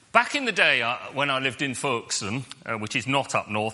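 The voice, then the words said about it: Put-on northern English accent. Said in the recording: “I've lapsed into a northern accent”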